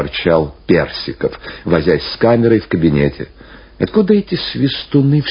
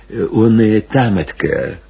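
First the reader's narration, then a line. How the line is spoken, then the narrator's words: Timid addition. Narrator (Russian): робко прибавил Панкрат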